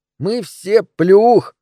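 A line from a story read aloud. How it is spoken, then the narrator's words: Muffled laughter. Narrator (Russian): хохотал Джеймс, уткнувшись носом в подол моего платья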